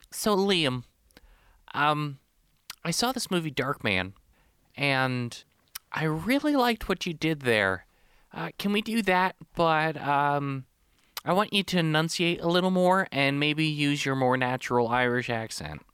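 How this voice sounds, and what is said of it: Nerdy Poindexter-style voice. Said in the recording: “you gave that guy the most Poindexter voice you could have ... I just went with Poindexter”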